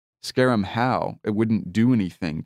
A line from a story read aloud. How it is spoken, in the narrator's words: Kingdom said